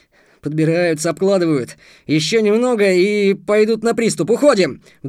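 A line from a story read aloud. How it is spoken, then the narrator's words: Sudden yell. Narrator (Russian): вдруг заорал Антон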